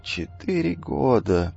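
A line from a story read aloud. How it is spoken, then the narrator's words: Near-silent mutter. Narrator (Russian): почти беззвучно бормотал Эфит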